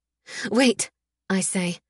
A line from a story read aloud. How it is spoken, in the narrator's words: my voice breathless and choked with dust